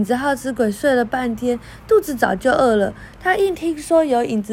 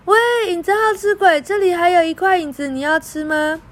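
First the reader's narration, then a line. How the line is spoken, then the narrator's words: Loud shout. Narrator (Chinese): 小安向窗外大叫着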